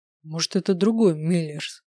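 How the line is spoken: Grumbling. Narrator (Russian): проворчал

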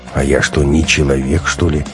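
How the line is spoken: Grumble. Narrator (Russian): буркнула Ираида

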